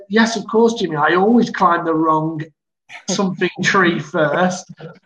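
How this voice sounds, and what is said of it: Mock teacher voice. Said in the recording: “in his best teacher voice.”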